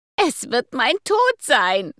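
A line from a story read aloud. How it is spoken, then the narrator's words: Wailing lament. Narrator (German): rief sie mit klagender Stimme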